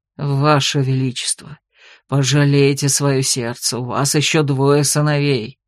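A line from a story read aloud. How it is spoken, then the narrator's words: Reproachful muttering man. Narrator (Russian): укоризненно бормотал он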